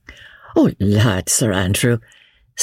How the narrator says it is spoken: said Marguerite, with one of her merry infectious laughs

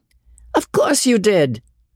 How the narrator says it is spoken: cried Osborne, still laughing

